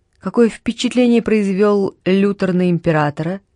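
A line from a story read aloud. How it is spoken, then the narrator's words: Plain. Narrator (Russian): спросил Бальтус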